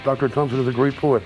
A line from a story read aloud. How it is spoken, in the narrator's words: they said